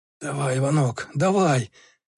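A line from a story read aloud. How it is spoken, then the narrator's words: Hoarse wheezing. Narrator (Russian): хрипел Васинцев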